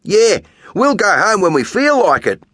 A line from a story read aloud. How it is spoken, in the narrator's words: Tan yells